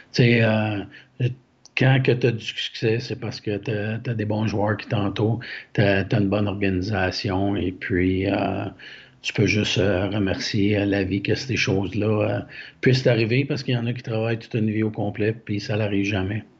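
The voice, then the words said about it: Quebec French accent. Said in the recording (French): “l'accent de ... un bel accent québécois”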